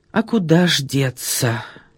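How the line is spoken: Crushed, dejected voice. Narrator (Russian): убитым голосом подтвердил

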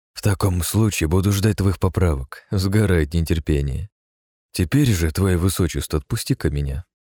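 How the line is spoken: Calm reply. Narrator (Russian): спокойно отозвался я

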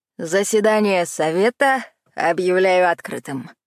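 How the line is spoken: Chuckling. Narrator (Russian): хохотнул Дэн

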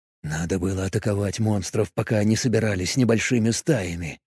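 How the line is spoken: Whisper. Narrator (Russian): прошептал он

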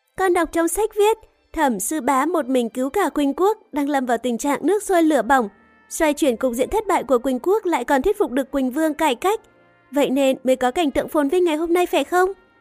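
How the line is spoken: Smiling voice. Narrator (Vietnamese): nàng ... mỉm cười nói tiếp

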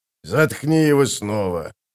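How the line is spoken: Muttered. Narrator (Russian): буркнул Кафал

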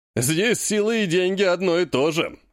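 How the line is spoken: Man guffawing. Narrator (Russian): захохотал мужчина

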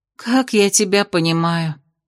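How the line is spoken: Sighing. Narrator (Russian): вздохнула она

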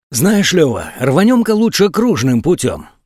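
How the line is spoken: Whispered suggestion. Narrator (Russian): шепотом предложил Борька

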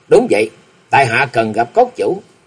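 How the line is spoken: Smiling. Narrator (Vietnamese): Lý Mộng mỉm cười

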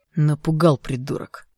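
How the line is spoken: Hissed. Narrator (Russian): прошипел Игнат

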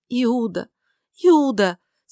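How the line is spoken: Sobbing. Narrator (Russian): сказала сквозь рыдание

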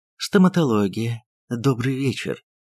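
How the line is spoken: Pleasant woman's voice. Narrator (Russian): красивая брюнетка приятным голосом сказала

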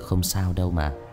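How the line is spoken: Young man, soft smile. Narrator (Vietnamese): Người thanh niên khẽ mỉm cười rồi nói

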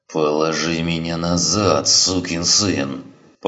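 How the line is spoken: Moaning. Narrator (Russian): простонал Гриссом

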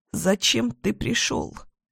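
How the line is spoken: Fearful sobbing. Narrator (Russian): Всхлипываю, все еще боясь

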